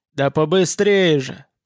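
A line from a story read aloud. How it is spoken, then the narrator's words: Moaning urgently. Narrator (Russian): простонал он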